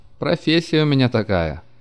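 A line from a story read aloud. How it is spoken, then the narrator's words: Laughing. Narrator (Russian): засмеялся Анечкин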